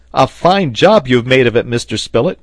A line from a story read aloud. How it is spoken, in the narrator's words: cried the sailor